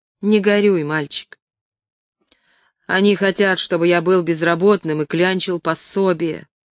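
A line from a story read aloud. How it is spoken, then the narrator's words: Grumbling. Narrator (Russian): проворчал Пег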